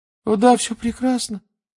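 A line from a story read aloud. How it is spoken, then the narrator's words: Babbling, unnaturally high pitch. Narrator (Russian): пролепетал он все тем же неестественно высоким тоном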